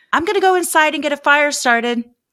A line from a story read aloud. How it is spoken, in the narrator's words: she yelled to Sabrina